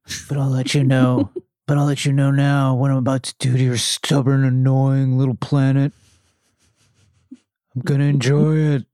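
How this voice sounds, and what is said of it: Southern California surfer accent. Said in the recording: “that little bit of Southern California, like, accent comes out here”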